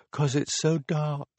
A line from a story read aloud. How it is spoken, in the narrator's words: he would answer in a frail voice